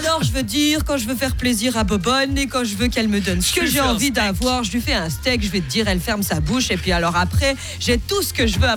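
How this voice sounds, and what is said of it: Put-on Belgian French accent. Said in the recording (French): “je suis obligée de prendre l'accent belge”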